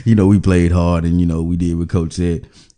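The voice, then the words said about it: Imitates a generic athlete interview voice. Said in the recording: “That's my impression of an athlete.”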